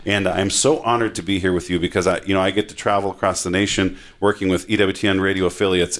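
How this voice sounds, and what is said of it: Slight Minnesota accent. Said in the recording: “I get that little Minnesota accent in there, but oofta”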